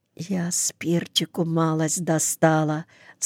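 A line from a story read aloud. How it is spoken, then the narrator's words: Whispered. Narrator (Russian): сказала шепотом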